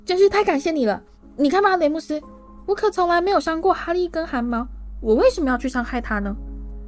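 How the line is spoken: Shrill shout. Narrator (Chinese): 佩里鲁尖声喊道

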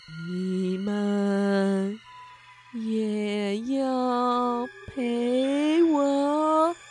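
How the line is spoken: Slow ghostly voice. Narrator (Chinese): 幽灵西蒙缓缓地说

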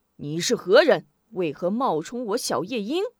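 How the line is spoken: Stern, puzzled question. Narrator (Chinese): 小夜莺胡伟甚觉奇怪，厉声问道

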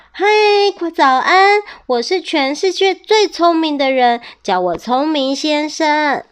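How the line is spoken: Loud greeting. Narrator (Chinese): 聪明先生立刻大声地向他打招呼

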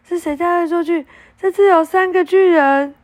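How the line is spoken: Shouting. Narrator (Chinese): 他大叫

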